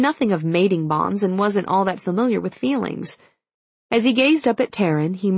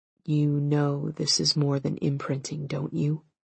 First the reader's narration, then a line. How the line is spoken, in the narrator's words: He said softly